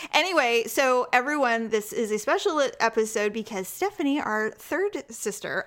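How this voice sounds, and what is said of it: Throaty, rough morning voice. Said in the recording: “God, I'm throaty this morning.”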